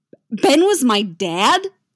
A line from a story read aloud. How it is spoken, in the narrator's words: Luke blurts